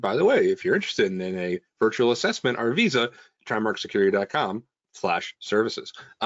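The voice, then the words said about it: Announcer-style radio voice. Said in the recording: “that's my radio voice.”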